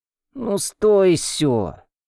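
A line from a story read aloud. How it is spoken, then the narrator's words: Sleepy mutter. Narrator (Russian): сонно пробормотал Ван Бо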